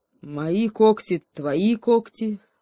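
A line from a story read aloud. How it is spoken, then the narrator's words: Bear, grim announcement. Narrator (Russian): мрачно объявил медведь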